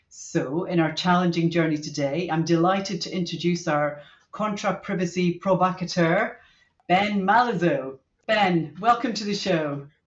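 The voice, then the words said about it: British accent. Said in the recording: “with the British accent, it actually makes me sound sophisticated and important”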